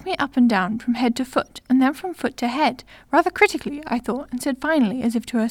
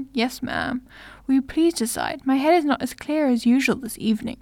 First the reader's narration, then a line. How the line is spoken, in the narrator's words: I replied, croaking